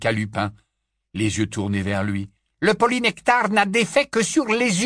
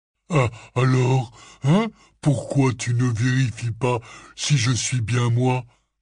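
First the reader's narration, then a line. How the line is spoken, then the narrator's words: Breathless, struggling question. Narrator (French): demanda Hagrid d'une voix haletante en continuant de se débattre pour essayer de franchir la porte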